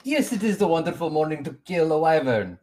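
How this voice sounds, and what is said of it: Put-on character accent. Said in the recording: “it's not because I just keep talking in this accent”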